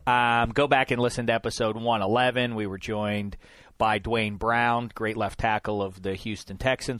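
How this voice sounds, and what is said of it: Congested voice with a cold. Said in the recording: “I have a cold, though, as you can hear.”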